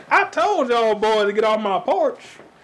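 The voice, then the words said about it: Put-on deep Southern US accent. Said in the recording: “a deep South voice ... that's just the Southern ... I've mastered that voice”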